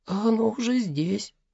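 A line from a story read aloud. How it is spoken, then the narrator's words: Child mumbling. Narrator (Russian): пробормотал малыш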